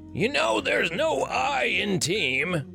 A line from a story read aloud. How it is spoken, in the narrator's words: Richter shouted